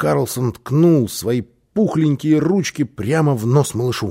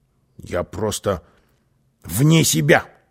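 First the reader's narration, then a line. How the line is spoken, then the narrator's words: Grumbling. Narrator (Russian): проворчал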